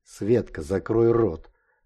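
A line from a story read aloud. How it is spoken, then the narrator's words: Menacing advice. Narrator (Russian): грозно посоветовала сидевшая слева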